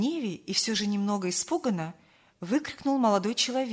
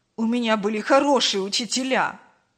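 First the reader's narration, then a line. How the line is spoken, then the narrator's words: Snapping retort. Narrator (Russian): Огрызнулся Павел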